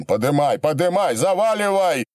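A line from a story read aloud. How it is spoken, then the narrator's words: Yelling. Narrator (Russian): заорал Вяткин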